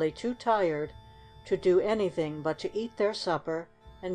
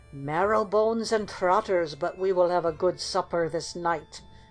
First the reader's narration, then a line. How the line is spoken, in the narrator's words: cried he, licking his lips